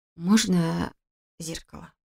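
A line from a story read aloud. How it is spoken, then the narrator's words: Hoarse mumble. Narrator (Russian): хрипло пробормотала я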